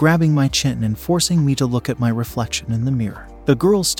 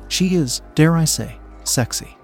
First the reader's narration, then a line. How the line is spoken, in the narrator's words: he continued, murmuring soft praises